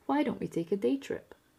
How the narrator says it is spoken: Spook gave a little laugh

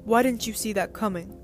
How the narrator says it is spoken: howled the baron

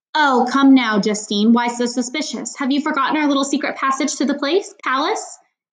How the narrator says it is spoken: he asked

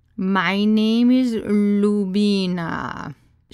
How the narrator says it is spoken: drawled in a thick Indian accent

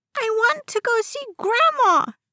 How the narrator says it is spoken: he screeched

